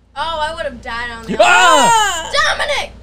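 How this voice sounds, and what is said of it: Loud yelling. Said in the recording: “Sorry, that was loud. ... Why are you yelling”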